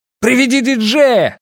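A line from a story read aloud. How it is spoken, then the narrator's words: Shout. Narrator (Russian): крикнул Рекс сыну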